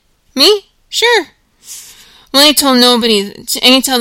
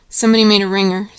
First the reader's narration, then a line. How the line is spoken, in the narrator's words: said Curly's wife